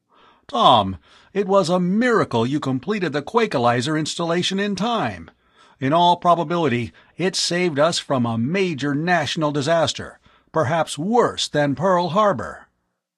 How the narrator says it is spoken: Miles exclaimed

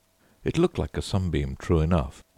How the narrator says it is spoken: he said

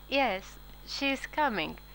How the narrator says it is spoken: she said, and though her voice was steady

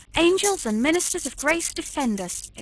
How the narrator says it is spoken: exclaimed George

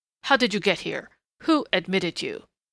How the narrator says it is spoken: he snarled in a sudden snapping of restraint

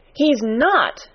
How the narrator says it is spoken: cried Mary, almost shouting up the wall in her fierce indignation

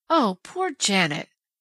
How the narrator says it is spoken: Penny groaned

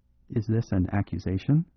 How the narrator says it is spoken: asked Kalon, very quietly

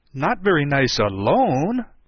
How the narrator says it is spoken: he interrupted quite eagerly

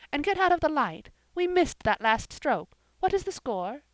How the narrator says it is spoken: exclaimed Jane

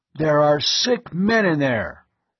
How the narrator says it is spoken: Hovan's voice boomed out

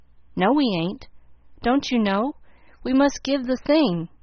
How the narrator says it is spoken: Tommy called out in a great hurry

